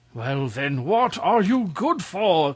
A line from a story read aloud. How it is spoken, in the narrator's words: cried the king in a fury